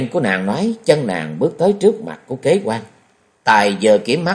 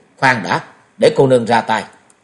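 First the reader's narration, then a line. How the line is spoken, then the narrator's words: Young woman's loud shout. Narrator (Vietnamese): Lục Y cô nương quát to một tiếng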